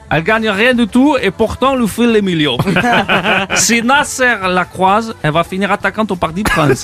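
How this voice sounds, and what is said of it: Put-on accent. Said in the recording (French): “Il est bien cet accent.”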